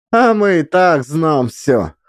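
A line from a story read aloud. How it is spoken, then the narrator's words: Laughing woman. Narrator (Russian): хохотнула баба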